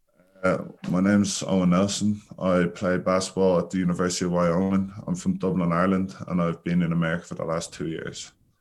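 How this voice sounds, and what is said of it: Irish accent. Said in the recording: “You haven't lost the accent yet. ... All the Irish people still have their accents.”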